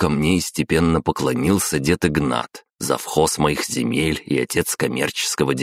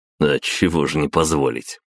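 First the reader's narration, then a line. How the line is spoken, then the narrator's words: Snort. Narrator (Russian): хмыкнул я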